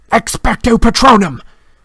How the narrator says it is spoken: roared

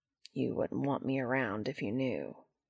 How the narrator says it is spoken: Cass sigh and mutter

